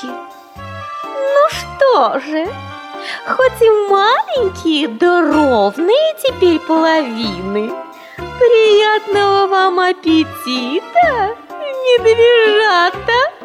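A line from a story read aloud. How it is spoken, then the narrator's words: Laughing fox. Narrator (Russian): Засмеялась лисица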